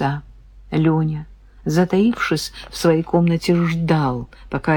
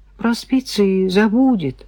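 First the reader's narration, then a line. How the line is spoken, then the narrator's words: Consoling. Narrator (Russian): попробовал Леня утешить брата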